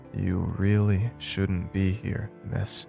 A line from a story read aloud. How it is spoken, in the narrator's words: she said slowly in her low tones